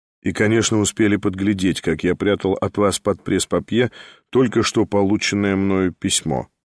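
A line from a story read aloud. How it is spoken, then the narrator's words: Calm. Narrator (Russian): спокойно проговорил Николай Всеволодович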